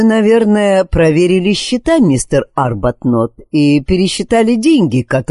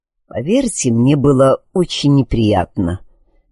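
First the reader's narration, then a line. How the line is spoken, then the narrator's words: Quiet, tense. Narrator (Russian): негромко ответил его собеседник напряженным голосом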